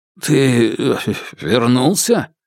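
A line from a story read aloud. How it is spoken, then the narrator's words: Stammering question. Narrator (Russian): спросил, заикаясь, старший брат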